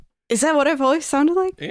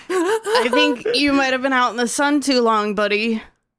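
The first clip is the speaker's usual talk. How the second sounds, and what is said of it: Surfer dude character voice. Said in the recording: “character voice? I don't really. I sound like a surfer, bro.”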